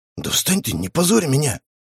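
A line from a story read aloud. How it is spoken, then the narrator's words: Whisper. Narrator (Russian): прошептал я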